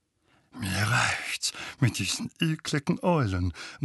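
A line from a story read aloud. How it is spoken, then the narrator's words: Distraught mutter. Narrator (German): murmelte Onkel Vernon verstört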